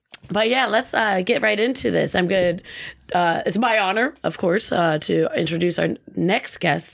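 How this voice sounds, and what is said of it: Slightly scratchy voice. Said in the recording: “my voice is a little scratchy right now”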